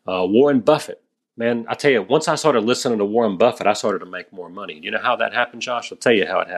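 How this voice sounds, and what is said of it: Usual voice. Nothing is said of it.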